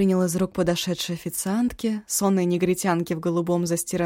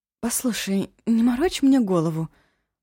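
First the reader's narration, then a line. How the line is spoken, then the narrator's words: Hissed. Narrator (Russian): зашипела она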